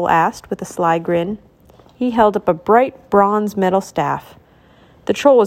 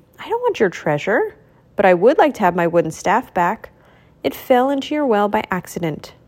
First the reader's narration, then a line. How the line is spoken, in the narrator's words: Mickey answered calmly